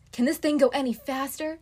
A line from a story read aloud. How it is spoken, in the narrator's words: Lance yells